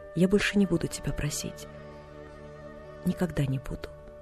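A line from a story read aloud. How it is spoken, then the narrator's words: Barely audible whisper. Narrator (Russian): добавил он так тихо, что девочка едва расслышала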